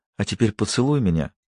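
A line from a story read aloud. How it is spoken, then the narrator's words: Smiling whisper. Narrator (Russian): Она улыбнулась и прошептала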